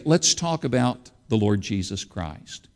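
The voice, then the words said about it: Quiet, soft-spoken voice. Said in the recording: “in my quiet inside voice, which my wife says I don't have”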